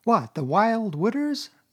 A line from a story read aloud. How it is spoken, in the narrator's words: cried Toad, trembling in every limb